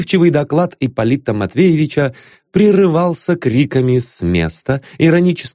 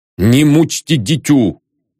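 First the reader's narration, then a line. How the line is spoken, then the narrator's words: Booming bass voice. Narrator (Russian): забасил он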